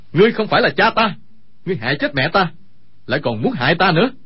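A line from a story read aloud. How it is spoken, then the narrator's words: Furious shout. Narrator (Vietnamese): Dương Khang đột nhiên nhảy tung lên quát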